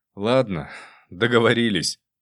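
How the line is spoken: Sighed. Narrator (Russian): вздохнул

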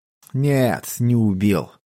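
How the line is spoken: Drawled, man. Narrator (Russian): протянул мужчина

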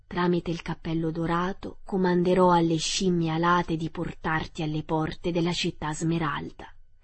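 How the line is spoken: Plain. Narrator (Italian): disse Glinda

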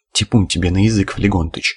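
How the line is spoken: Glum indignation. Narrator (Russian): уныло возмутился Кузьма

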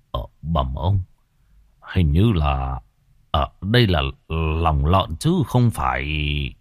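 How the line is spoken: Old man's puzzled mutter. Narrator (Vietnamese): lão Khâm khẽ cau mày lẩm bẩm

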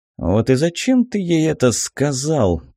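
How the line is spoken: Groaning. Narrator (Russian): простонал Рью

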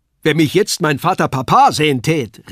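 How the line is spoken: Calling out. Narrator (German): rief er

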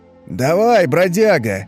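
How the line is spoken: Cheerful shout from afar. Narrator (Russian): весело крикнул откуда-то из угла Тух-Тух

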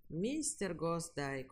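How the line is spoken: Weary inspector. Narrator (Russian): устало сказал инспектор

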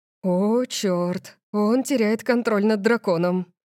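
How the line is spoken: Breathless exhale. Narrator (Russian): выдохнул парень позади меня

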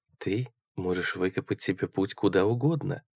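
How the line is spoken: Soft. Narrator (Russian): мягко сказала она

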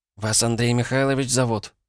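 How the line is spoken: Timid smiling question. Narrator (Russian): спросила она, робко улыбаясь

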